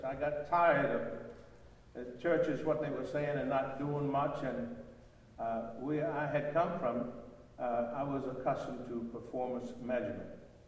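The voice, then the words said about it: Southern American drawl. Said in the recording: “the southern drawl, it's because I'm from Birmingham, Alabama”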